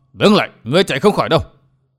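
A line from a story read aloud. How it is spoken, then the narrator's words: Furious old man shouting. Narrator (Vietnamese): Lão quái nhân bị lừa vô cùng phẫn nộ quát to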